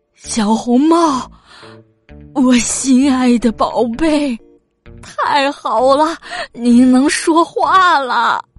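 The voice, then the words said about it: Trembling voice. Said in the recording (Chinese): “她用发抖的声音说”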